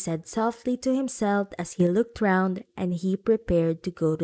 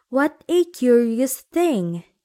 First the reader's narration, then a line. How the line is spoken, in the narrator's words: he cried